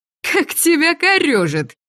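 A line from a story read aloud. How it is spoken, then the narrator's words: Sudden laugh. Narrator (Russian): вдруг рассмеялась она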